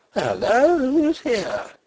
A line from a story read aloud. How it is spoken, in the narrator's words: he cried in startled tones